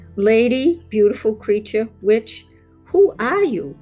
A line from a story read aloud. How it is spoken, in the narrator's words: Bart asked